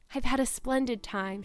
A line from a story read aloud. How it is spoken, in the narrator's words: she concluded happily